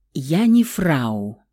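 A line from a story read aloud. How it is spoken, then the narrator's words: Slow reply. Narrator (Russian): Медленно ответил Феникс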